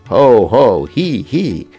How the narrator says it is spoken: Krishna's friends filled the four directions with robust laughter

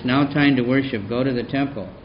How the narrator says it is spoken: He gently told Gangadas

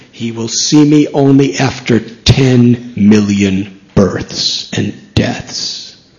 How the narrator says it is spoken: Lord Chaitanya, in a very thunderous voice, said

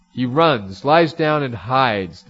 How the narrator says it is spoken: the demon cried

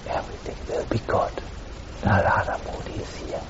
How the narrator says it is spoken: He just whispered in her ears

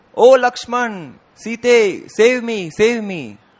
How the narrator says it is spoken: Maricha shouted loudly

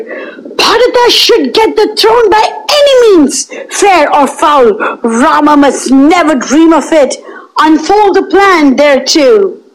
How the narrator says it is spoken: Kaikeyi cried out

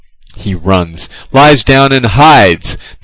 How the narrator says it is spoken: the demon cried

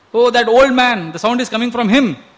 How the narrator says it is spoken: one of the technicians immediately shouted

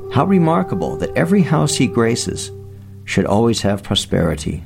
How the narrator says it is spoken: they exclaimed

